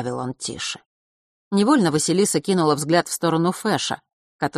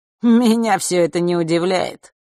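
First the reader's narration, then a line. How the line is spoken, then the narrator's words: Skeptical hmph. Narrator (Russian): хмыкнул Марк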